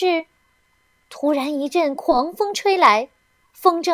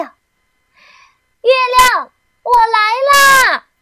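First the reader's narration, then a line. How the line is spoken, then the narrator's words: Happy shout. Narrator (Chinese): 提莫龙迎风飞起，高兴的大叫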